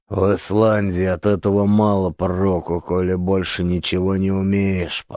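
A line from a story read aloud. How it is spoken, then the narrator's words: Grumbling. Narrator (Russian): проворчал я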